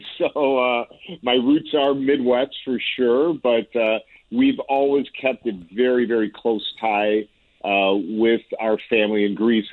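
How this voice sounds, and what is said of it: Strong Chicago accent. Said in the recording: “my very deep Chicago accent.”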